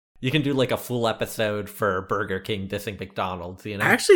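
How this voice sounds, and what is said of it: Usual voice. Nothing is said of it.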